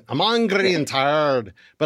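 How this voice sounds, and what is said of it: Put-on Scottish accent. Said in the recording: “sounds like a pirate ... That's my Scottish accent.”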